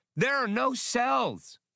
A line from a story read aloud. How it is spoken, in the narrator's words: Max answered indignantly